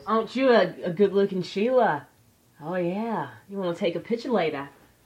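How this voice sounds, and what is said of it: Stereotypical fake Australian accent. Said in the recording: “They fake the accent ... My stereotypical Australian accent.”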